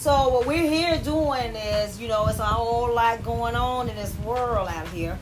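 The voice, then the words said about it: Southern Florida accent. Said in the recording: “If you don't know the recognizing, you don't know the accent, I'm from the southern part of Pensacola, Florida.”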